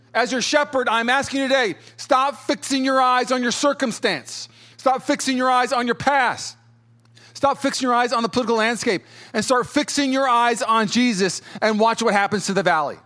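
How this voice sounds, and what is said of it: Loud, yelling preacher delivery. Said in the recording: “I feel like I'm yelling at you a little bit right now. I had some coffee.”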